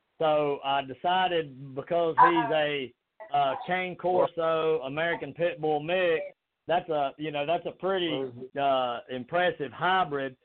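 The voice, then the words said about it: Southern American accent. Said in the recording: “That's my southern accent.”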